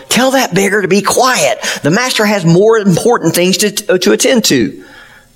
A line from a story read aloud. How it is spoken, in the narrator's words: the ones leading the way yelled